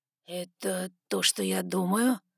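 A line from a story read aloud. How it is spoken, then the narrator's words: Hoarse, breathy. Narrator (Russian): Хрипло выдохнул Саймон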